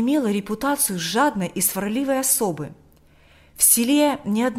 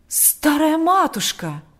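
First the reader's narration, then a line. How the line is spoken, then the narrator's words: Horrified exclamation. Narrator (Russian): воскликнул отец Кирилл в ужасе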